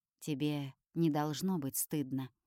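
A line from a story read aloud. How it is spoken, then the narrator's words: Quiet. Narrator (Russian): тихо говорит он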